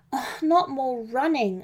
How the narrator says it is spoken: mumbled, my poor legs and chest in so much pain

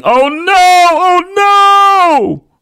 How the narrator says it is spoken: Her yelling

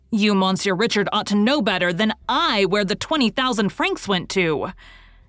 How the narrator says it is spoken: yelped

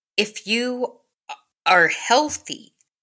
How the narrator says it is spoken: stammered Luke

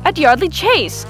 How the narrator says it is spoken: I cried, interested

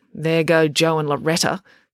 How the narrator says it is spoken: Finn grumbled grumpily

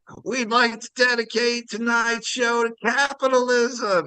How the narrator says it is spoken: there's a guy, lead singer, is just screaming at the beginning of a set

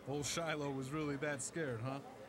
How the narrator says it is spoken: Gomez asked Tish in a low voice so others couldn't overhear

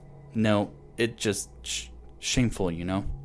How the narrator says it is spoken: he muttered

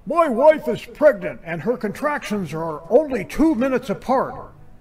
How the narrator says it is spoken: A blonde man shouts frantically into the phone

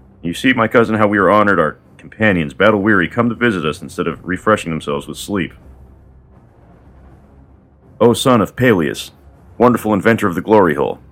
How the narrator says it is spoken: said Patroclus

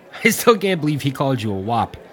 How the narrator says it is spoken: said, laughing

